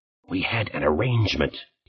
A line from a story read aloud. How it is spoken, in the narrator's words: hissed